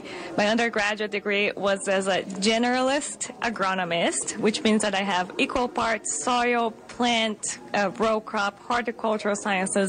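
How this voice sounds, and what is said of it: Slight Brazilian accent. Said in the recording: “she has an accent for a reason. She comes from a much warmer climate... I do have a little bit of an accent... I grew up in Brazil”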